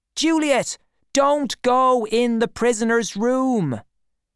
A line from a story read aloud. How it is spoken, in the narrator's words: Artemis was shouting into an empty kitchen